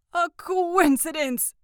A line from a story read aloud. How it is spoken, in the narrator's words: stammered the old man